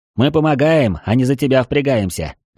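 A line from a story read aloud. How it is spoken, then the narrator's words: Smirking grunt, mercenary. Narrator (Russian): хмыкнул наемник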